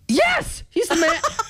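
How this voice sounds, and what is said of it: Screamed yes with voice crack. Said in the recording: “as my voice cracked as I screamed yes too”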